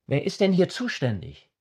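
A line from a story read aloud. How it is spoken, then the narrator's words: Two men, cheerfully reproachful. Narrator (German): riefen beide Männer in fröhlich vorwurfsvollem Ton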